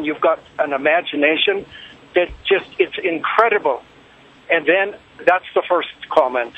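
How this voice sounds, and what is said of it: Irish accent. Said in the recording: “I love your accent. ... It has to be Ireland or Scotland, right? ... all the way from Ireland”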